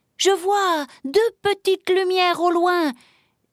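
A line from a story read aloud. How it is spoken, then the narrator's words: Sudden joyful exclamation. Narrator (French): s'écria soudain Velours, fou de joie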